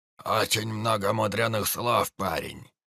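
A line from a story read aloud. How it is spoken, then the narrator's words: Grumbling old man. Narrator (Russian): заворчал один из стариков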